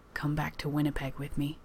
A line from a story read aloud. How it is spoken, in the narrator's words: Johnny whispers